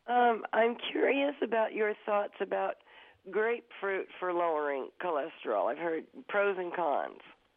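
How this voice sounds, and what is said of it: Congested voice with a cold. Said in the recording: “I have a bad cold”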